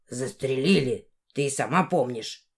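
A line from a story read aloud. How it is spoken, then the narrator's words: Grumbling raven. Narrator (Russian): проворчал ворон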